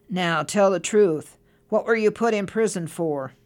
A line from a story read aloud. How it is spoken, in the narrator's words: very sternly and said